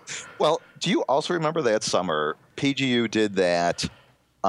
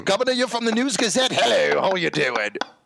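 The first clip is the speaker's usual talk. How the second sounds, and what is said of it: Very bad put-on English accent. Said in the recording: “Can't you tell that is the worst English accent ever?”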